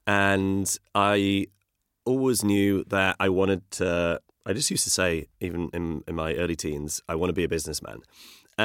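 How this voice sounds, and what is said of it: Northeast English accent. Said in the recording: “I grew up in the Northeast. I don't know if you can tell from my accent. I'm from Durham.”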